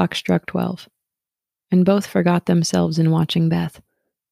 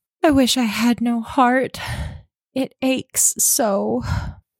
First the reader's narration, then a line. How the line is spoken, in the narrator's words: sighed Meg after a pause